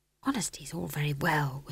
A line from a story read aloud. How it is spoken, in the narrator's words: whispered McGrath wretchedly